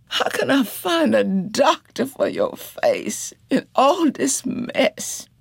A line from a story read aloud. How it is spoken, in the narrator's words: Janie wailed